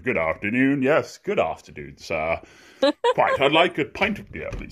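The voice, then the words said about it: Posh English accent. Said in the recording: “I just sort of shut up and try to speak in my posh English accent.”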